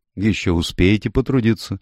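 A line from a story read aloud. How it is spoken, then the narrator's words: Dry remark. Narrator (Russian): сухо заметила сестра Хопкинс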